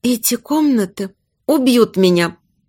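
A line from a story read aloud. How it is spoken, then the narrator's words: Whisper, chattering teeth. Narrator (Russian): прошептала, стуча зубами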